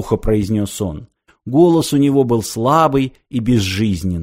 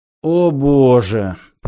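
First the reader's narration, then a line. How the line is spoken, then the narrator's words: Groaned. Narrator (Russian): простонал Зафот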